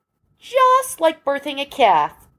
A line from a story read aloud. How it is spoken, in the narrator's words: Pam said happily